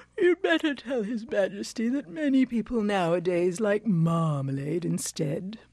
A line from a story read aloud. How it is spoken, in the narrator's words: The Alderney said sleepily